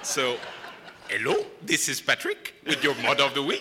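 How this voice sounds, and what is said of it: Put-on weird Indian accent. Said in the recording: “he always gives me a weird Indian accent... That's actually really good.”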